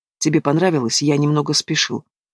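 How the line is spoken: Soft question. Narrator (Russian): Савелий спрашивает мягко

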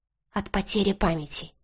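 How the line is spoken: Whisper. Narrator (Russian): шепотом поведала Элена

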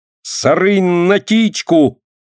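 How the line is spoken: Desperate, plaintive cry. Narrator (Russian): отчаянно и жалобно кричала она

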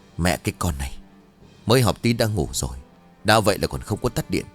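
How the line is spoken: Muttering. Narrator (Vietnamese): bà Thanh lẩm bẩm

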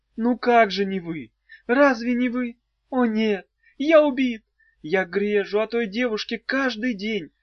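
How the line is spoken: Sobbing. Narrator (Russian): сказал Фатяйцев и, рыдая

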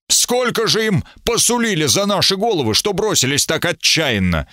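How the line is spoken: Excited shout. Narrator (Russian): Сэр Смит прокричал возбужденно

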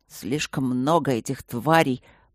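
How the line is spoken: Anxious mutter. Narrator (Russian): пробормотал тревожно Лэрд Вудхаус

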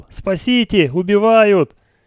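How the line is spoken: Terrified scream. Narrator (Russian): Наконец кто-то в животном страхе закричал

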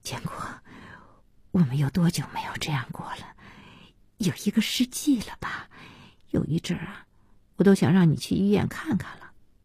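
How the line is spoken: Tearful murmur. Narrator (Chinese): 小希被这笑感动得要哭 嘴里喃喃的

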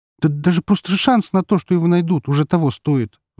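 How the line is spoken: Sigh. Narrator (Russian): вздохнула она

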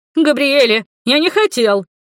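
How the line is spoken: Squealed. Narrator (Russian): завизжал Дудоля

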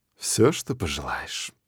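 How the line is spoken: Languid breathy. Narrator (Russian): выдохнула Беа с томной улыбкой

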